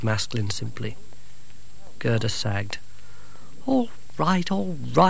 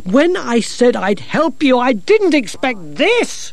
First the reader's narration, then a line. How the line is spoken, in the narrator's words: shouted Gerda